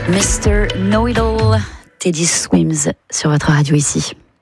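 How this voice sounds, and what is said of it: Put-on London English accent, suave voice. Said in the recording (French): “personne ne relève mon accent ridicule ... il est magnifique ... une voix suave ... Suis-je londonienne?”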